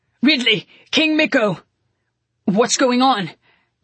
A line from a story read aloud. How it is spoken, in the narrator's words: I heard Baltzar shouting